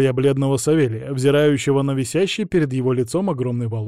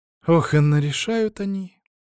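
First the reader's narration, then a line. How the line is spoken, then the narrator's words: Sighing. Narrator (Russian): Вздохнул я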